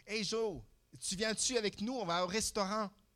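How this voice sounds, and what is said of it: Put-on Québécois French accent. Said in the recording (French): “Avec l'accent québécois.”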